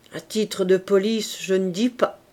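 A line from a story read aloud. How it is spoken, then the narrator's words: Murmured. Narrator (French): murmura le docteur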